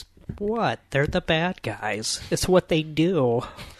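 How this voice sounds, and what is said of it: Imitates another person's voice. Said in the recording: “best Margot Robbie impression”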